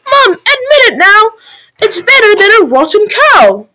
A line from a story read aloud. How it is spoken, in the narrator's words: Young Jack cried